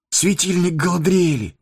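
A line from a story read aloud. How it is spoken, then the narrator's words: Exclaimed. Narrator (Russian): воскликнул Фродо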